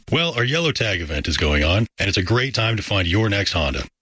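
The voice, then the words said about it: Smooth, sultry radio-announcer voice. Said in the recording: “nice radio voice ... so sultry of a voice”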